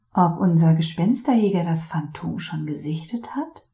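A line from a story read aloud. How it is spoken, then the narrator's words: Murmuring. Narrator (German): murmelte Noir McFinnigan zu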